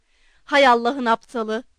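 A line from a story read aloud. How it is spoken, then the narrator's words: Shouted. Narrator (Turkish): diye bağırdı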